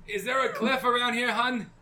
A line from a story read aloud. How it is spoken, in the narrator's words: I yell back to Yolanda